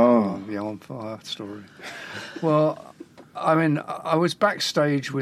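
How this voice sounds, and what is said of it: Usual voice. Nothing is said of it.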